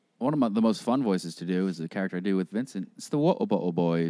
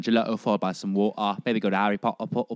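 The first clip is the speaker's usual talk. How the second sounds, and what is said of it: Exaggerated bad British accent. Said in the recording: “It's really just a really bad British accent, and you really go for it”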